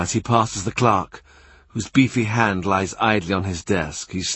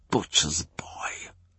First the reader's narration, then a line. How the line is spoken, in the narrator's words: he whispers